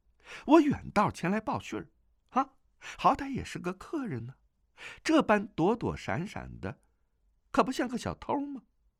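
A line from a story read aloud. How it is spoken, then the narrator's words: Gentle, smiling. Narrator (Chinese): 钟夫人向他微微一笑，那模样甚是温柔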